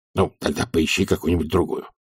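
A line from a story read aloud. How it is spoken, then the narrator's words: Quiet. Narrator (Russian): сказал он тихо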